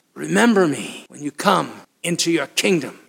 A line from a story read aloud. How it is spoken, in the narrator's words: gasped